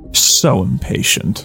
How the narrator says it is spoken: Pidge murmurs

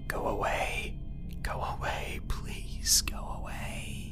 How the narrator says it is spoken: I chanted under my breath

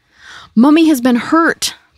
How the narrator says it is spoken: Pauline yelled

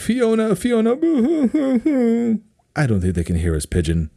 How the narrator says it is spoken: Fairy Godmother's now mocking him, saying

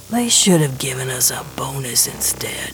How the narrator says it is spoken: Gershwin mutters

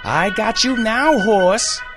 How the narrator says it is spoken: screamed

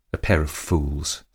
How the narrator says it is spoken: said my lady bitterly

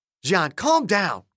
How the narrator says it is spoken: Kolding snapped

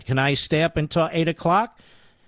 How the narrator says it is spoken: Mary asked breathlessly

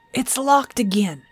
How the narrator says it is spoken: Jerry cried

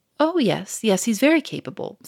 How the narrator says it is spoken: said the inspector quickly

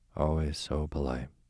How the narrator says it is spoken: murmured the Duke

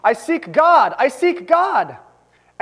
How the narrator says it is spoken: that madman cried incessantly

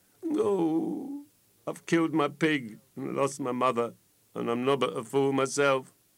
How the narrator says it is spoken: says he, sobbing

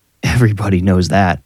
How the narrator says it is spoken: Vic laughed

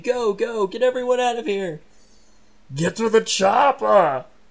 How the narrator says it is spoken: screaming

